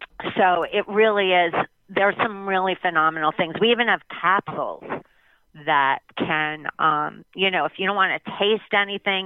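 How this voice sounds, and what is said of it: American East Coast accent. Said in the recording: “What happened to ... Texas accent? I'm hearing, I'm feeling some Eastern seaboard here. ... I would think that the Eastern shows through all the time.”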